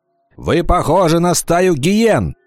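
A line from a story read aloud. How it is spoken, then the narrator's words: Shouted. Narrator (Russian): закричал Вольф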